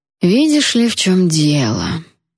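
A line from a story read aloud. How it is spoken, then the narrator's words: Addressing someone. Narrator (Russian): обратился он ко мне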